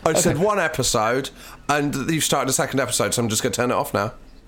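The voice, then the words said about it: Stern parental telling-off voice. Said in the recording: “Do your telling off voice”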